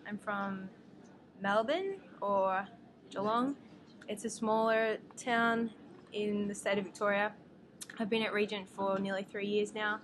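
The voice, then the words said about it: Australian accent. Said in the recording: “a slightly different accent than me or James ... My accent tells me and the rest of the world that I'm from Australia.”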